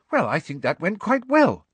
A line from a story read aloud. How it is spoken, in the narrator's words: said Hermione happily